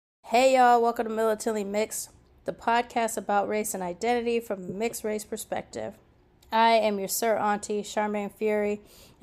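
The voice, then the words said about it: Sick-sounding voice from a cold. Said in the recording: “as you can hear from my voice, I'm still pretty sick ... I don't sound like myself. I feel the cold coming on”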